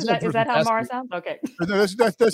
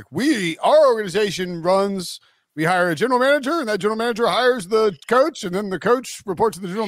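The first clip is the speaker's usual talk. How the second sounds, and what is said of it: Imitates another person's voice. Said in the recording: “that was my George McCaskey impression”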